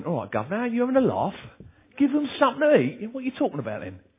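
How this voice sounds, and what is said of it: Broad Cockney accent. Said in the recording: “In a broad Cockney accent.”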